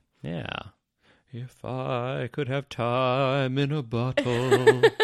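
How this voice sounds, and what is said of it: Imitates a singer's voice. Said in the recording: “that's about the extent of my Jim Croce impersonation.”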